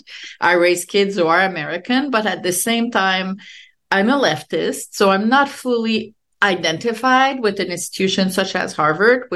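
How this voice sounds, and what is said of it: French Canadian accent. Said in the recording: “I'm French Canadian ... I obviously have an accent.”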